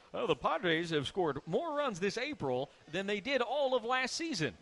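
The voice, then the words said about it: Old man Jimmy Stewart voice. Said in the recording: “speak in an older 80-year-old Jimmy Stewart type accent?”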